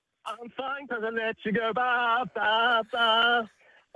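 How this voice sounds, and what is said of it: Singing in high falsetto. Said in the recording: “Bro's got a falsetto. ... let me hit them high notes.”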